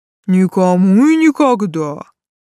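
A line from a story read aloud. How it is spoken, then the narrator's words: Solemn fat man. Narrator (Russian): торжественно пообещал толстяк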